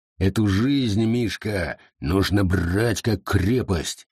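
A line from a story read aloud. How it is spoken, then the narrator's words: Growling. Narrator (Russian): рычал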